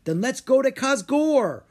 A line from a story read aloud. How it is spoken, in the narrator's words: Rory cried